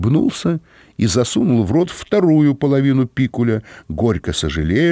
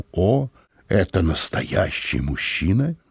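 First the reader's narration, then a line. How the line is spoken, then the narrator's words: Crystal-clear female voice. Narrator (Russian): госпожа Мозес произнесла хрустальным голосом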